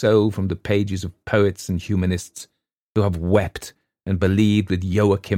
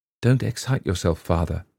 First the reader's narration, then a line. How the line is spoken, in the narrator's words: she said, in the detached tone of a professional nurse